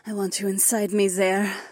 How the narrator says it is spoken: Nora sighed

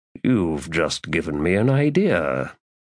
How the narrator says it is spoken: he murmured

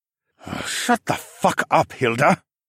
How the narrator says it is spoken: Mateo finally muttered

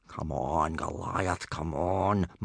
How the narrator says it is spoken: muttered Gobber the Belch

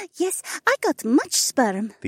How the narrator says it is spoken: the alien giggled

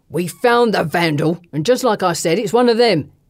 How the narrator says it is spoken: he shouts

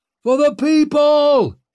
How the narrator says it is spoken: he roared

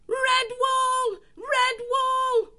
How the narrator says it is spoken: The savage chief, held fast by the ears, gave one loud piercing squeal

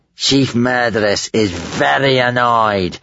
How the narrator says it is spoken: spat Gumboil

